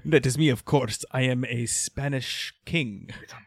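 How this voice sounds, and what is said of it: Put-on Spanish accent. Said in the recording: “Why are you putting on an accent? ... I know it's super offensive, even for Spanish people.”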